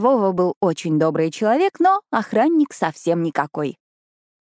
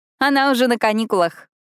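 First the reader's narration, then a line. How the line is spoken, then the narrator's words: Laughing. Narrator (Russian): засмеялась я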